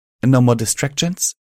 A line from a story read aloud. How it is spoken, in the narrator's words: She asked calmly